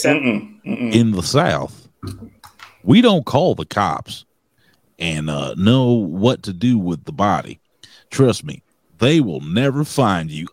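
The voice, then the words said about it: Bad put-on Southern accent. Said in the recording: “I'm going to read it with a Southern accent ... What kind of accent is that? That was a terrible. ... That was the worst.”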